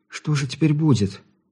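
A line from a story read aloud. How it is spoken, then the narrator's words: Frightened question. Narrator (Russian): испуганно поинтересовалась она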